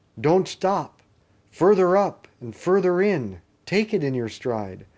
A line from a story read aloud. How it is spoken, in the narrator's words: the unicorn cried out